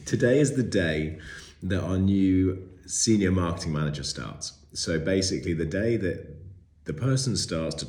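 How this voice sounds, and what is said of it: Slightly funny, unwell-sounding voice. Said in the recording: “I'm just recovering from sickness, which is why my voice sounds a little bit funny.”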